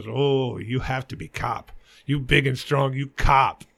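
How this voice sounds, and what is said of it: Put-on foreign accent. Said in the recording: “I'm sorry for the accent.”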